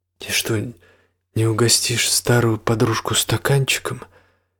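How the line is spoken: Almost plaintive. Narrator (Russian): Теперь голос Ангелики звучал почти жалобно

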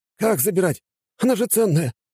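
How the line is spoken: Stunned exclamation. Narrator (Russian): воскликнул ошарашенный голый индеец

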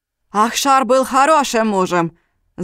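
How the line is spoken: Shouting. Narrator (Russian): закричал Алим

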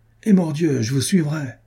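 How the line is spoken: Exclaimed. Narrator (French): s'écria Renaud

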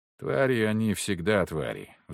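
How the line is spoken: Sighing. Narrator (Russian): вздохнул я

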